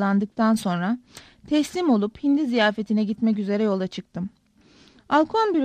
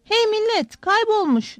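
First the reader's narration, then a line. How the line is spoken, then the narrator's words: Shouting. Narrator (Turkish): diye bağırıyordu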